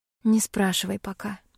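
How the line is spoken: Sigh. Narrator (Russian): вздохнула я

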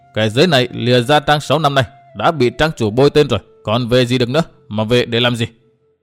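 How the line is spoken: With a dry laugh. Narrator (Vietnamese): Hắn đáp qua tiếng cười nhạt

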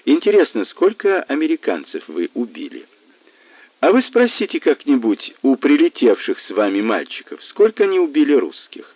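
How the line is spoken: Calm, not provocative. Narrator (Russian): сказал Мазур, спокойно, ничуть не задираясь

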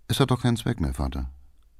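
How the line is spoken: Quiet. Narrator (German): sagte Erich leise

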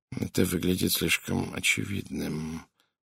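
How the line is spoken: Muttering to himself. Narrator (Russian): пробормотал Пуаро, словно обсуждая что-то сам с собой

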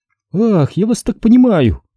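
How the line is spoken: Sympathetic sigh. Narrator (Russian): сочувственно вздохнула Мэрилин

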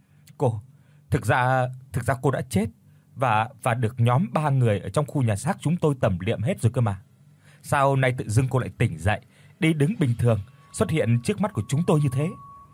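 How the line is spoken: Stammering question. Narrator (Vietnamese): lắp bắp hỏi

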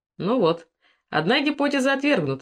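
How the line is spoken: Laughing. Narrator (Russian): засмеялся Генрих

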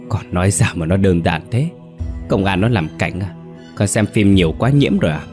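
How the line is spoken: Insistent, through gritted teeth. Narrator (Vietnamese): Hoàn vẫn nhất quyết, giọng nói kèn kẹt qua kẽ răng

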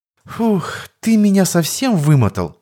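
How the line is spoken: Blissful exhale. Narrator (Russian): С блаженством выдохнула Алая, сплошь покрытая бисеринками пота

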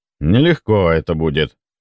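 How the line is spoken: Sighing. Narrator (Russian): вздохнул Федор Иванович

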